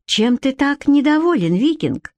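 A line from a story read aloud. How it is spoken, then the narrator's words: Feigned innocent question. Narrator (Russian): деланно невинным тоном осведомилась она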